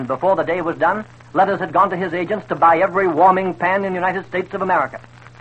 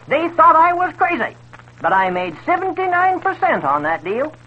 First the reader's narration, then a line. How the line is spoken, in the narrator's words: Dexter, laughing up his lace-covered sleeve, cackled